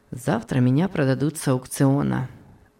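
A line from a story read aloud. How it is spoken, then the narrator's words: Calm. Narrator (Russian): спокойно ответил Том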